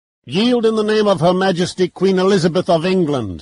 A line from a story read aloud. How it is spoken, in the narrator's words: bellowed above the din